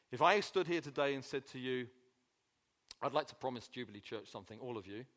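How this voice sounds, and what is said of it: Speaker with a noticeable accent. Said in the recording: “Speak with a funny accent.”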